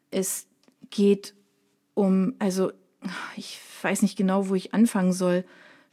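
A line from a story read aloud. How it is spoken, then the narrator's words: Stammering to himself. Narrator (German): stottert er vor sich hin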